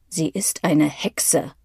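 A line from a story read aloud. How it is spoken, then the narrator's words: Growling. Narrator (German): knurrt der Zweite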